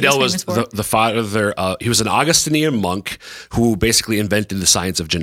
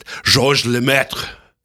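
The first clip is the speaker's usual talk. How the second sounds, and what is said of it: Put-on French accent on a name. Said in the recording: “I'm going to go up with an accent. ... That's pretty good.”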